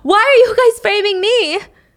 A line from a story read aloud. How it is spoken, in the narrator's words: Mimi screams